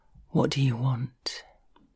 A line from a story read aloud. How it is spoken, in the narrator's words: whispers in my ear